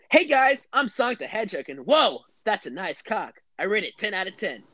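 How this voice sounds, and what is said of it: Cartoon hedgehog character voice. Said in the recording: “do my Sonic impression.”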